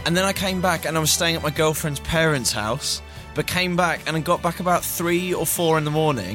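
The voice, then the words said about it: Hoarse voice. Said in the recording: “As you can probably hear in my voice, I shouted a lot.”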